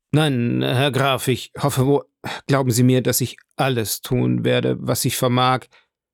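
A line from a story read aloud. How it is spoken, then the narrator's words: Stammered. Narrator (German): stammelte Villefort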